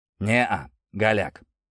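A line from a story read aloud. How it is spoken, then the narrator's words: Weary. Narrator (Russian): устало сказал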